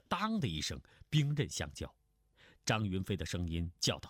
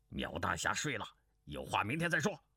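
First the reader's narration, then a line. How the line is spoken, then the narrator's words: Low voice. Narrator (Chinese): 钟兆能低声道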